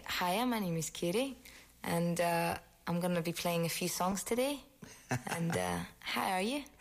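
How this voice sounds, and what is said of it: Put-on Irish accent. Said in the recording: “you can do a wicked impression of the Irish accent”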